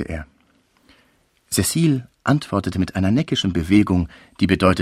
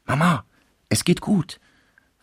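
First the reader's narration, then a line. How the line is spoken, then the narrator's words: Whispering in ear. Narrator (German): flüsterte sie der Mutter ins Ohr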